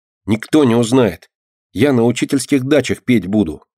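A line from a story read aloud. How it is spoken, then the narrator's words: Cheerful. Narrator (Russian): весело сказала Динка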